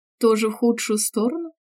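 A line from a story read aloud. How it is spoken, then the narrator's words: Laughing. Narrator (Russian): рассмеялась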